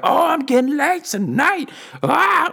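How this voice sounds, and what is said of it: Raspy imitated woman's voice. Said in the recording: “that's exactly how she sounded as well. She was very raspy.”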